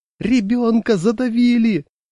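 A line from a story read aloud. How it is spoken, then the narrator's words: High-pitched shout. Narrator (Russian): дядя Саша закричал тонким голосом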